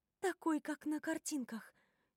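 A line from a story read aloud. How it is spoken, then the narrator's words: Quiet whisper. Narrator (Russian): тихо шепчу я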